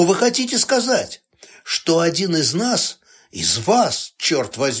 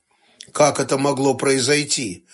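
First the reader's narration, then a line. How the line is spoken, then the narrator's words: Gloomy question. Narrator (Russian): мрачно спросил Сташевич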